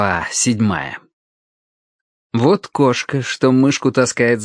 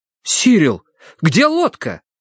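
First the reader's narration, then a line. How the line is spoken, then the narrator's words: Exclaimed. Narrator (Russian): воскликнул Терренс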